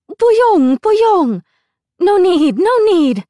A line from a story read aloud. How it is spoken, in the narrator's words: exclaimed